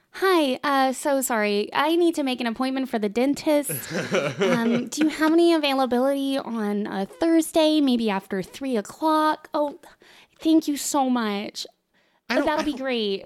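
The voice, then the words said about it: Polite put-on phone voice. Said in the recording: “phone voice”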